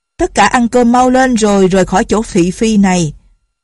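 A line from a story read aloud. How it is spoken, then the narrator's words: Loud voice. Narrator (Vietnamese): có người lớn tiếng nói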